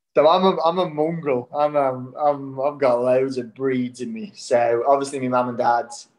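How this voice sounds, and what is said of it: Mixed Irish-Australian, Scouse-like accent. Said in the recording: “I'm left with a voice now where people actually think I'm from Liverpool. It's kind of Scouse like”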